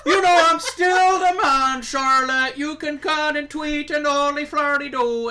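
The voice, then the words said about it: Impression of an Irish wrestler. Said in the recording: “That's such a good Finn Balor impression. ... It also could have been the Irish ace, Jordan Devlin. I don't know. They all sound the same.”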